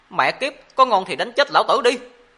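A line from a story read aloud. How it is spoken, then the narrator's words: Furious cursing. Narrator (Vietnamese): Trong cơn giận dữ, Mộ Dung Thiên chửi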